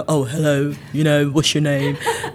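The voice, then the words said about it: Impression of a stiff, soldier-like greeting. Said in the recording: “that was a very good impression”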